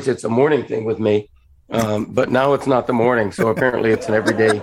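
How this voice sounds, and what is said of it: Rough, dry-sounding voice. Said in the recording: “can you drink some water? ... You sounded like shit ... sorry about my voice. ... you drink coffee, which dries out your voice”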